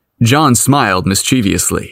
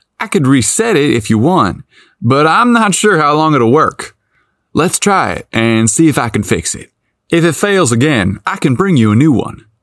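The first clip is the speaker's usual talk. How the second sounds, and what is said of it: Innocent country accent. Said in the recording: “in his innocent country accent”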